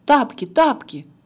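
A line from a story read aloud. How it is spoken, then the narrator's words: Shouted. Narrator (Russian): закричал Иван Карлович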